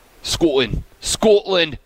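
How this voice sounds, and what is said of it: Put-on Scottish accent. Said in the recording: “Scotland's the only word I can do in a Scottish accent, and it works.”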